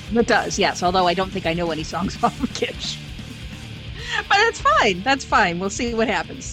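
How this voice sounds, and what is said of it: Chicago accent. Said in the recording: “If you can't tell from the accent, ... from Chicago.”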